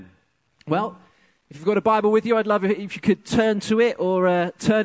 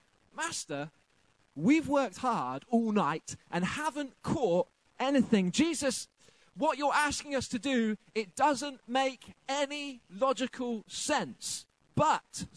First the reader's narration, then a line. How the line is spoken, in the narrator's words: says Simon Peter